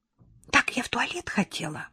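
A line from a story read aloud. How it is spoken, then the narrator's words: Daughter whispering. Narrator (Russian): Дочь даже прошептала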